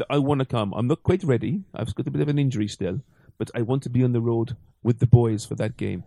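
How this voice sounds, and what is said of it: Put-on Welsh Valleys accent. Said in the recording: “What accent was that? ... That was Welsh. ... It's from the Valleys. ... From the Valleys.”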